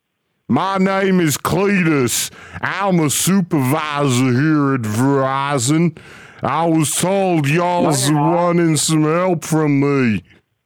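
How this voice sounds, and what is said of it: Drunk-sounding slurred character voice. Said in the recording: “why do you sound drunk?”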